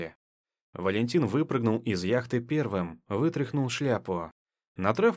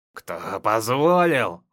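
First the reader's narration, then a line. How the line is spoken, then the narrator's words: Growling. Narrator (Russian): зарычал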